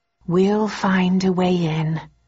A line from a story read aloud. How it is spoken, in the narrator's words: I said slowly